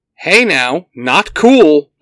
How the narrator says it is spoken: Blue Ranger shouts

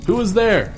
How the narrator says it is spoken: Still in panic, he called out

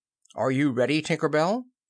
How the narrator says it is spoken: he called out

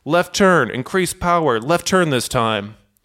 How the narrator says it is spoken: Captain Takahama shouts

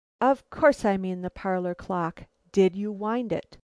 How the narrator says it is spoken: I calmed myself, looking severe to hide my more than eager interest, and sharply cried

